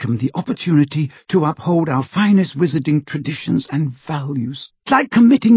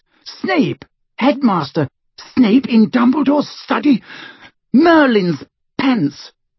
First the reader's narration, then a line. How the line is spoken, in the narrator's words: She shrieked